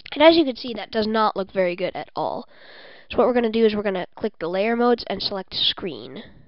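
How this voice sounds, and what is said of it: Congested, stuffy-nosed voice. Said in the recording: “I have a cold. I'm just really congested right now”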